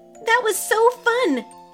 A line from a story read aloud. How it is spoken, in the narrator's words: she exclaimed